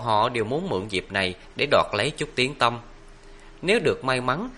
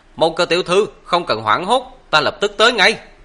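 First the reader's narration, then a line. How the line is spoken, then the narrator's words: Loud projected shout. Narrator (Vietnamese): dùng thuật khớt trương âm thanh mà quát lớn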